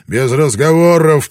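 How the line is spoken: Growl. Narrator (Russian): прорычал Блэкторн

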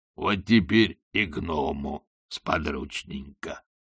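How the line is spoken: Snort. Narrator (Russian): хмыкнул он

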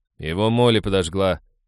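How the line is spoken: Nervous grumble. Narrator (Russian): проворчал Хэл, сглотнув слюну

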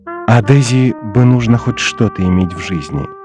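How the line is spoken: Low voice. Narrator (Russian): вполголоса сказала Джордан

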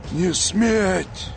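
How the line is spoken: Barely audible wheeze. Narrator (Russian): Неслышно сипел командир

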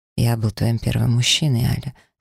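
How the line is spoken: Calm. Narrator (Russian): спокойно продолжил тот

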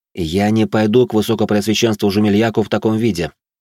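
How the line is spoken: Cold tone. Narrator (Russian): произнес я холодным тоном

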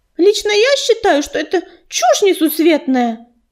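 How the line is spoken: Declaring. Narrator (Russian): заявила рыжинка

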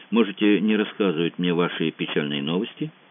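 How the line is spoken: Quiet. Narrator (Russian): тихо произнес Франсуа

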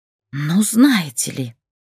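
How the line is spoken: Hissing. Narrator (Russian): прошипела Людмила

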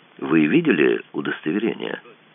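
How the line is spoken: Level, even voice. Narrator (Russian): ровным голосом спросила Даша

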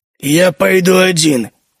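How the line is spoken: Curt growl. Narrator (Russian): коротко рыкнул он

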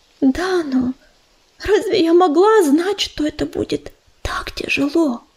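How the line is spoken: Whisper. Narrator (Russian): Прошептала Белка

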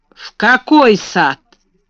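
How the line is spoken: Rough question. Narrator (Russian): спросил он грубо

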